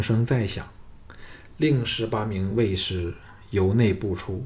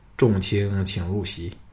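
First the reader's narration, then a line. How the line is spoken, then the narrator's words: King, flat calm. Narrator (Chinese): 庄襄王淡淡的说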